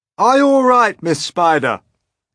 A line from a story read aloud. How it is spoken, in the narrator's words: shouted the old green grasshopper